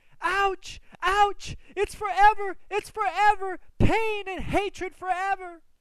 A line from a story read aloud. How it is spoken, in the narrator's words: screaming